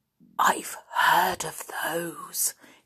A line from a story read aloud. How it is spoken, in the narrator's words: he said in a hushed voice